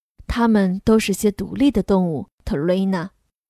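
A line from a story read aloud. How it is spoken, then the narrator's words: Father speaking softly. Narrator (Chinese): 爸爸轻声说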